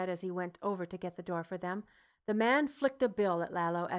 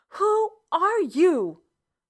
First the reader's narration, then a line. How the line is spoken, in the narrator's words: Lalo interrupted angrily, upset at the relentless presence